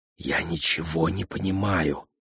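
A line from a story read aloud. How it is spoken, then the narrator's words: Whispering. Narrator (Russian): прошептал господин Хасакава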